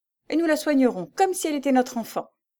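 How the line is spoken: Brisk. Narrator (French): dit-elle vivement

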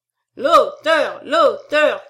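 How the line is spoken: Crowd shouting. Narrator (French): cria la salle

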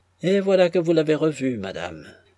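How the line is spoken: Brisk. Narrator (French): reprit vivement Vassili Ivanovitch

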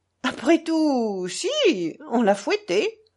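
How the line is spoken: Laughing. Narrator (French): dit-il en riant

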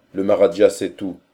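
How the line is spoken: Plain. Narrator (French): dit encore Akbar

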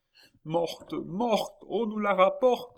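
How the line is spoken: Anguished cry. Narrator (French): s'écria Philippe en tombant à genoux

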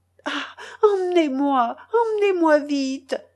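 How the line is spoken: Crying out through sobs. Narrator (French): criait-elle à travers ses sanglots

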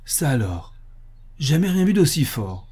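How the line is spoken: Exclaiming. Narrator (French): s'exclama Harris

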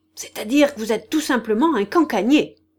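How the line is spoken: Shouting. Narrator (French): cria Gagna

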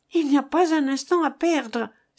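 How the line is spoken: Exclaimed. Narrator (French): s'écria Jeanneton

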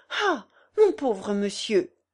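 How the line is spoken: Exclamation. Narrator (French): s'écria-t-elle

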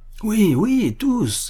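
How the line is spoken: Crowd shouting from everywhere. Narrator (French): s'écria-t-on de toutes parts

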